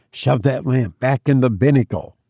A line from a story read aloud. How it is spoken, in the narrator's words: said Will